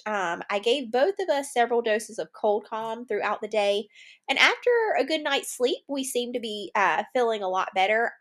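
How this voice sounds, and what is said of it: Congested, stuffy-nosed voice. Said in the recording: “You probably can hear it in my voice. Just some congestion, drainage.”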